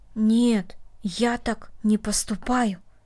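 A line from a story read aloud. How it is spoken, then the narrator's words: Quiet. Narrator (Russian): тихо сказал Дина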